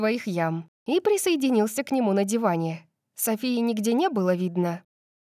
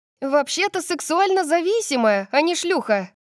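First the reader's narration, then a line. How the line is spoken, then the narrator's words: Shouting after someone. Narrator (Russian): крикнула я ей вслед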